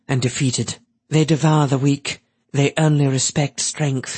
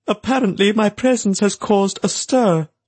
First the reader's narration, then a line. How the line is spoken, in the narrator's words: he said in his high, almost hooting voice